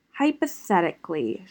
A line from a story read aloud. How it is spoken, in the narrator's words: she mumbled